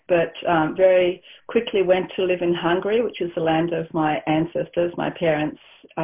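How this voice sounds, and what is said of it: Australian accent. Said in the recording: “I was born in Australia, thus the accent”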